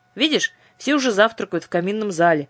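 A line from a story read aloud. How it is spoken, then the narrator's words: Grumbling. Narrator (Russian): проворчала Дара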